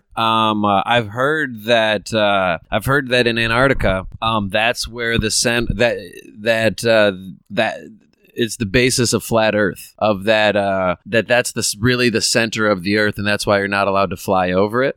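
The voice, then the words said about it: Stuttering, hesitant delivery. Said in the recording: “you're stuttering that out”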